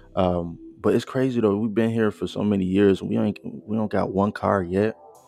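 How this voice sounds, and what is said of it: American accent. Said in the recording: “We're from the U.S., by the way, just to, you know, have some context. If you didn't tell by our accents.”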